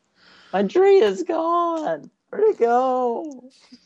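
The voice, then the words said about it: Impression of a friend yelling upset. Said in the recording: “that is exactly how he sounded ... That's a pretty good impression”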